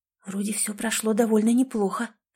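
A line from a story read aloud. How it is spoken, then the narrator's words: Whispered. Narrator (Russian): прошептала Линда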